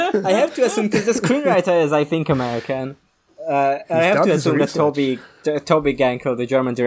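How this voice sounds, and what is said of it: Usual voice. Nothing is said of it.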